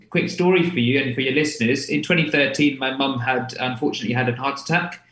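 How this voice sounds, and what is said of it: London English accent. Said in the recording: “you can tell from my accent that I'm not from the North. I'm from London myself.”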